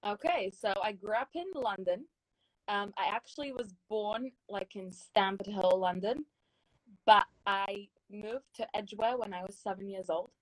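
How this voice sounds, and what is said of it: Speaks with a noticeable accent. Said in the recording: “the accent a little bit gives it away”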